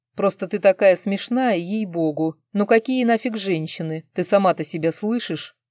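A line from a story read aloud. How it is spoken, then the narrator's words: Sudden beastly growl. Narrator (Russian): зарычал вдруг, как дикий зверь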